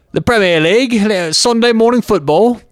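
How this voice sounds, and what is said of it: Put-on English accent. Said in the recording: “I start talking in my English accent”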